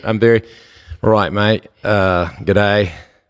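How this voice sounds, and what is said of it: Put-on Australian accent. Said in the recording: “I can only do like an Australian accent. ... That's really good.”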